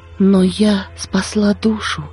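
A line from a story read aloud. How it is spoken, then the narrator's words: Quiet. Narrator (Russian): сказала она тихо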